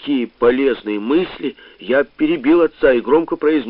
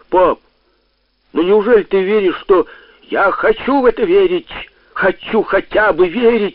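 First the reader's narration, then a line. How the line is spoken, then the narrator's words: Father exclaiming behind wall. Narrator (Russian): воскликнул отец за стеной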